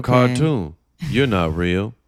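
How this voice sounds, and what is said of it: Imitates another person's voice. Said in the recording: “That's my Michael Jordan impression.”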